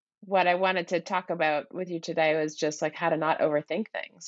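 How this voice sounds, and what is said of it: Odd-sounding voice, not vocal fry. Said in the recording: “I do not have vocal fry. I have a legit situation here. ... my voice sounds so odd.”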